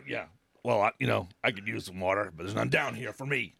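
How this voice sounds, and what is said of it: Rough, dry-throated voice. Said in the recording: “it's like a desert over here in my throat. Right now it's itchy and on fire ... Even my little accent's getting a little rough ... My voice is getting very burning”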